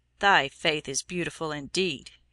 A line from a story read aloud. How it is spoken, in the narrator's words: said scornfully